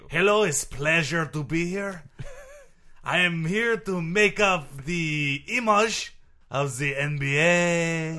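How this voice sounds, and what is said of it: Put-on interesting foreign-sounding accent. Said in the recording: “that interesting accent”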